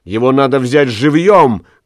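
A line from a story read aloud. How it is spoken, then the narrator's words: Shouting. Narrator (Russian): крикнула она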